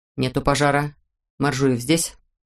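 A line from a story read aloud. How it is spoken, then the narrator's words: Stern. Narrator (Russian): сказал он строго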